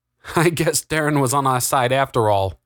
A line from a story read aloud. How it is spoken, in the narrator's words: laughed Augustus